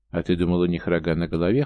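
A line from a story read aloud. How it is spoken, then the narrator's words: Wry grunt. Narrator (Russian): хмыкнул я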